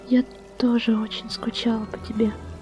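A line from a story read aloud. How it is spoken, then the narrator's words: Quiet, tender young woman. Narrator (Russian): тихо ответила девушка, уже замирая от новых нежных и пылких прикосновений и поцелуев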